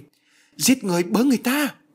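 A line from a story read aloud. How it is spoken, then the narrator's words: Panicked cry. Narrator (Vietnamese): Bà hoảng hốt kêu lên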